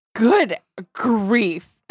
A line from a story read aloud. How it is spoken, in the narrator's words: Enid hissed